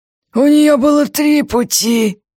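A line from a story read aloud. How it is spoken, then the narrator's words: Grimmer. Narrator (Russian): еще более мрачно поправил его лупоглазый бандит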